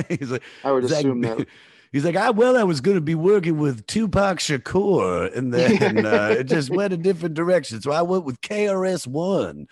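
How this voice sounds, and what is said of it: Imitates another person's voice. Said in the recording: “you do his voice, which is not, it's not far off”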